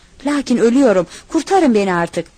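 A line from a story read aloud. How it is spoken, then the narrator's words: Crying and screaming. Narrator (Turkish): ağlayarak, haykırarak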